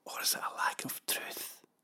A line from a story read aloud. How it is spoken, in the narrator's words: He moved closer and whispered